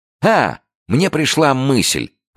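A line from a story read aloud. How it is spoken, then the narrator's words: Exclaimed. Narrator (Russian): воскликнул Джо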